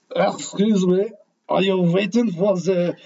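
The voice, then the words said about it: Girl's voice with bad French accent. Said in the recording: “That's my really bad French. ... It's a girl. ... That was a girl voice. ... that's the girl voice. I'm sticking with it.”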